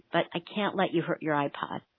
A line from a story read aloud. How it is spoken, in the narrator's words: I murmured